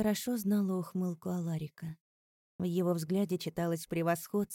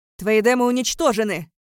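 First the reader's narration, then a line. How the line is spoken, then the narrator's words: Shouted. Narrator (Russian): выкрикнул мой отец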